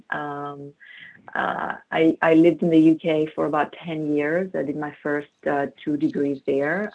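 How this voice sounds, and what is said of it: Greek accent speaking English. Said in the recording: “I grew up in Greece as a Greek Orthodox ... This is where the accent is coming from. Then I moved to the UK.”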